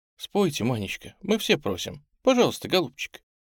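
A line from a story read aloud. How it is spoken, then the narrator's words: Said affectionately. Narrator (Russian): Тамара ласково сказала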